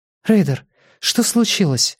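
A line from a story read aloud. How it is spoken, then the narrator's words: Frightened question. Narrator (Russian): испуганно спросила она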